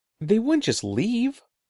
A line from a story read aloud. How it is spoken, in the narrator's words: exclaimed